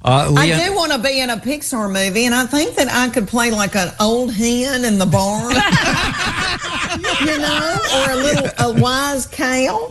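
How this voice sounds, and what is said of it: Noticeable regional accent. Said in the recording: “With this accent, you know?”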